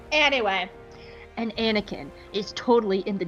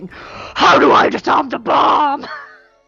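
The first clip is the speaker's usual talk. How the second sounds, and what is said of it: Deep throaty Batman-style voice. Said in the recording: “best deep throaty Batman impression”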